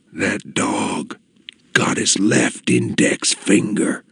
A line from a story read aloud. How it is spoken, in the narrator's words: whispered